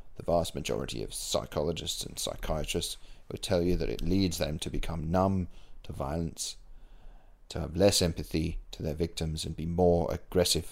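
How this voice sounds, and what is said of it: Put-on British accent. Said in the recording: “I don't know why I made him sound British”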